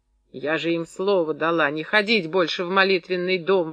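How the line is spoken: Exclaimed. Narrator (Russian): воскликнула Клашка

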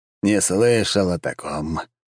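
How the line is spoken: Relieved sigh. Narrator (Russian): облегченно вздохнул бог целительства

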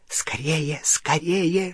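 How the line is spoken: Hissing in ear. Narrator (Russian): шипел ему в ухо крюкохват

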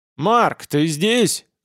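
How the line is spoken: Barked shout. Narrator (Russian): гаркнул Гел

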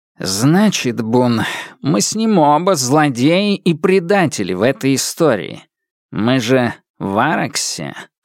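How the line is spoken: Theatrical sigh. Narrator (Russian): сказал Темса, театрально вздохнув

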